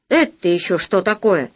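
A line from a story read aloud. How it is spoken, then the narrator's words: Stern question. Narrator (Russian): строго спросил Полосков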